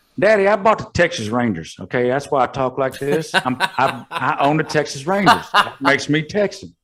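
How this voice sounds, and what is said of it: Put-on Texas cowboy accent. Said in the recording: “speaks with a Texas accent ... I'm a cowboy, pew, pew, pew, I'm a cowboy”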